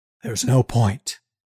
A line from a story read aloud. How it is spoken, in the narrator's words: says quietly